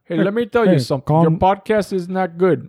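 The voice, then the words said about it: Unclear put-on character accent. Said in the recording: “I don't even know what accent that is. ... I was doing Abe Weissman.”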